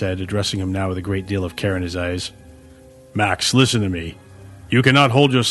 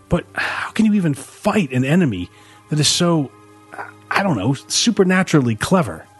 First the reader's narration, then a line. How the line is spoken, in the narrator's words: Max said, his voice choked with despair